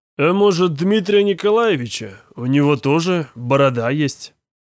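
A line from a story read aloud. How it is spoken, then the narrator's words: Snide remark. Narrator (Russian): ехидно выговорил Личун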